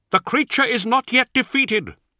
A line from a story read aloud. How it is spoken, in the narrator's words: cried Israfael